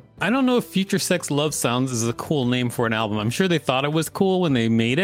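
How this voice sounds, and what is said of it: Usual voice. Nothing is said of it.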